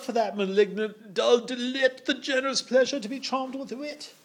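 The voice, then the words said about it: Put-on Cockney accent. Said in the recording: “imagine it a little bit Cockney ... a kind of Cockney accent”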